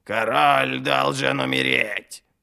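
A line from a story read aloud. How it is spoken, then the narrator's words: Creaky rasping voice. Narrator (Russian): проскрипел орел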